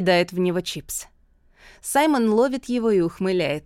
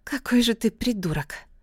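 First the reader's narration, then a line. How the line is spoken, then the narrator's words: Mumbling. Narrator (Russian): Эмбер бормочет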